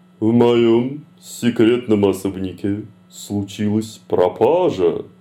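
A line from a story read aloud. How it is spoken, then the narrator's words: Sultry seductive breathy voice. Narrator (Russian): Роковым голосом опытной соблазнительницы выдохнула пани Ева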